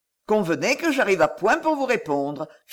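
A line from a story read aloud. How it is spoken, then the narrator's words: Cheerful. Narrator (French): fit-il gaiement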